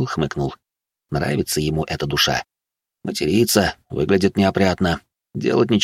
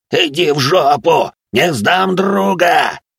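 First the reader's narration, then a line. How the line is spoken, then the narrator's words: Roared, last strength. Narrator (Russian): взревел Жабич и нашел в себе еще кроху сил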